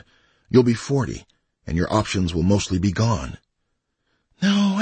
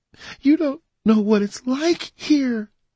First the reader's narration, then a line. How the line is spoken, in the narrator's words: she cried